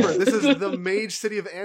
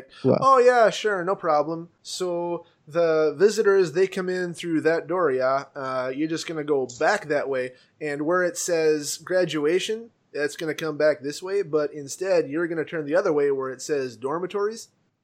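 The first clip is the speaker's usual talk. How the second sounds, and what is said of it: Put-on Canadian accent. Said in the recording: “Cool accent. ... there are no Canadians here. ... with an accent like that”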